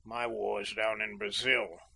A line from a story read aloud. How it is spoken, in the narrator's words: muttered Kay